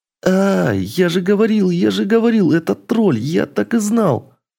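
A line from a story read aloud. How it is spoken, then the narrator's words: Squeaky voice. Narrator (Russian): пропищал Шантайк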